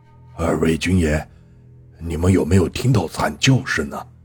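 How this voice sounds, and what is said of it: Quiet, hushed questioning voice. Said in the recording (Chinese): “小声问”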